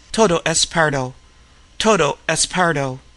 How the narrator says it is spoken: he repeated in a monotone, over and over again

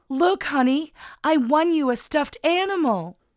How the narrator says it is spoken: Linda let out a phony little girl squeal and exclaimed

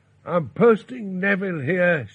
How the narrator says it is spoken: she shouted

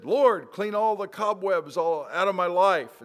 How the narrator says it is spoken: the other guy yelled

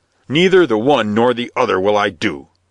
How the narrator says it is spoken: snarled the bishop

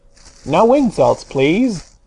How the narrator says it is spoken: answered the phonograph in a surly tone

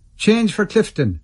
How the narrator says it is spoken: I heard them shouting

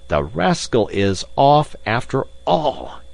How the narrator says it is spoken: he exclaimed

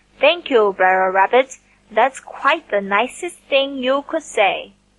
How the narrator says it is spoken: Buzzard grinned and slowly winked one eye at Unc' Billy Possum as he replied

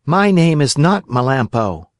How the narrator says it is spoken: answered Pinocchio

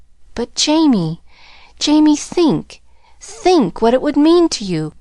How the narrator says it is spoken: quavered Mrs

